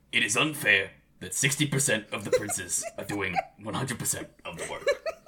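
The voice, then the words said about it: Good Bernie Sanders impression. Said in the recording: “That was Bernie Sanders, by the way. You know, it's a good impression”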